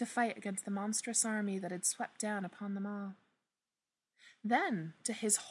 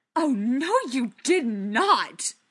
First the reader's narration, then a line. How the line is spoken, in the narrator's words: Bilbo spat out